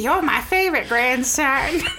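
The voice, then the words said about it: Old grandma character voice. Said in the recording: “You sound like a grandma. ... The best grandma voice.”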